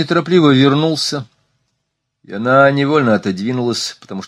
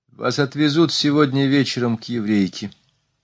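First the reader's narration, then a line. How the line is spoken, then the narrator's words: Plain. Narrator (Russian): сказал он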